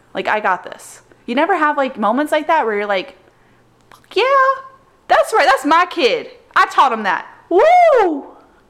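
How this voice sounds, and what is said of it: Yelling, loud excited voice. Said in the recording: “I don't know why you're yelling”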